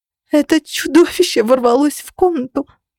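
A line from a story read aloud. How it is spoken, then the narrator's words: Choking on sobs. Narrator (Russian): задыхаясь от рыдания, рассказывала Денис, которая и сама была ранена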